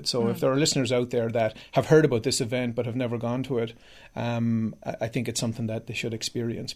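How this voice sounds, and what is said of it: Irish accent. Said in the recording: “when people hear my accent or talk to me or find out I'm Irish”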